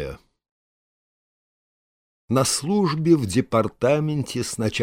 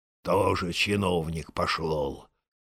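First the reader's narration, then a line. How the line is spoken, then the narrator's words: Grumbling. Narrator (Russian): ворчал он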